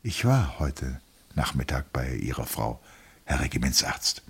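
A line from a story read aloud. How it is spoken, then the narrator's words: Plain. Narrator (German): sagte der Leutnant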